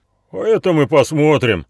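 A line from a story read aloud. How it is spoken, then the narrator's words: Shouting bearded leader. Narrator (Russian): крикнул бородатый охотник, видимо, предводитель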